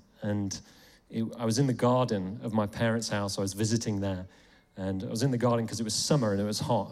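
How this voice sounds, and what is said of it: English accent. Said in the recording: “I was in England, you might tell from my accent”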